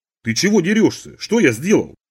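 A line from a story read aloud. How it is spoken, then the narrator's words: Indignant exclamation. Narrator (Russian): возмущенно воскликнул я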